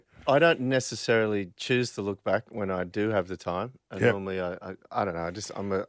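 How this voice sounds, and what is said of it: Australian accent. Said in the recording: “you still got your Aussie accent?”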